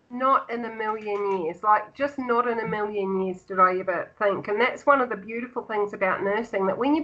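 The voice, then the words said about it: Mixed Australian, Kiwi and UK accent. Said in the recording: “I'm hearing some Australian. We've also got some Kiwi twings in there as well. We've got some UK.”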